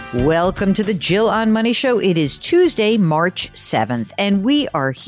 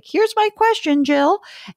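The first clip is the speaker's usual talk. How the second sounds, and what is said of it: Voice rises in pitch. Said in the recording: “I don't know why my voice went up on that, but it did.”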